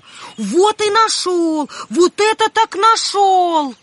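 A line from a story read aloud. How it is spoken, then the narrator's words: Shouted. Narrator (Russian): Васька закричал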